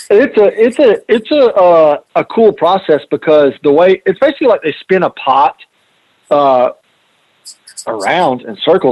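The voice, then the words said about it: New York City accent. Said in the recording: “how you say New York City ... I catch a bunch of hell for the accent ... Everybody, New York City”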